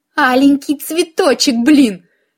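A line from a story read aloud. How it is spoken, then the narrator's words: Exasperated exclamation. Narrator (Russian): в сердцах воскликнула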